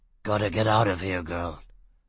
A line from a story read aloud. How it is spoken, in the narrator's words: Foyle mumbled